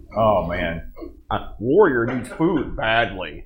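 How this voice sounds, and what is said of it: Impression of Gauntlet game voice sample. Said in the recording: “do an impersonation of your favorite gauntlet uh, sound sample? the voice samples.”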